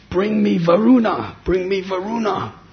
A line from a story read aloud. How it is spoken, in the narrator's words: cried out to Srivas